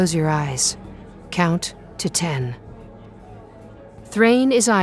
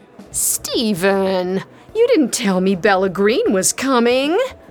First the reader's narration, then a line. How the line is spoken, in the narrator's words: whines